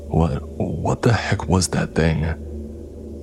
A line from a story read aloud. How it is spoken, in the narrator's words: Martin sputtered, tears welling up in his eyes